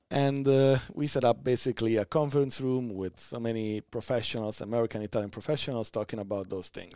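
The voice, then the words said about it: Italian accent. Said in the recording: “you were never going to get rid of the accent... I'm fine to live with my Italian accent... People love an Italian accent.”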